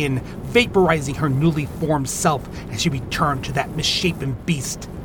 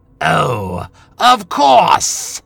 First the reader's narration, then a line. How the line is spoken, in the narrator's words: she sneered at Jonah